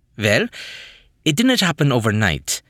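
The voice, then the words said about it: Thick German accent. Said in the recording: “in a thick German accent.”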